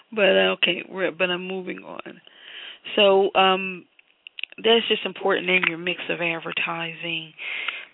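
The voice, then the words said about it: Raspy voice. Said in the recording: “I'm really having a hard time with allergies. So my voice is sounding raspy”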